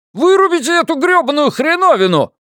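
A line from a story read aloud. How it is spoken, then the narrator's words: Shouting. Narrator (Russian): И тут Джордж Стэннер закричал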